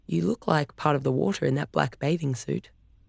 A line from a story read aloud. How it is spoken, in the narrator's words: he said quietly